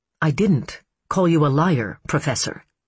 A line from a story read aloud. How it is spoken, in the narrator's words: she said calmly